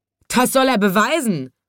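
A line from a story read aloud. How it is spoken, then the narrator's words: Roaring shout. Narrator (German): brüllten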